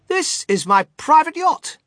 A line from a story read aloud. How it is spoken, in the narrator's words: cried Mr